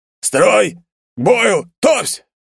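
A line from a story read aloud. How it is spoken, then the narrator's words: Barked military command. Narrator (Russian): гаркнул офицер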